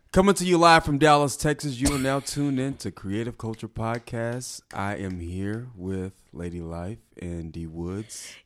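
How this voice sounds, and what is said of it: Polished radio announcer voice. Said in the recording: “You got the perfect radio voice.”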